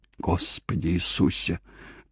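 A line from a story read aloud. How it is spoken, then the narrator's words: Whisper. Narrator (Russian): прошептал Смит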